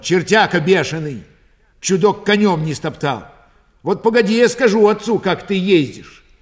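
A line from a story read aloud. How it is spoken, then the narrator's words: Loud ringing shout from afar. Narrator (Russian): Аксинья, еще издали голосисто крикнула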